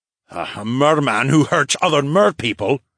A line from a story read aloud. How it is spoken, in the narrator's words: the Duke grunted